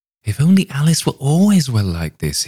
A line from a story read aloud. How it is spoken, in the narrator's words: he exclaimed